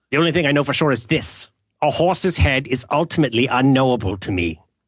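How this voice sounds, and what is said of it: Quotes a movie in an accent. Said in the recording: “Do you mean to quote movies in an accent?”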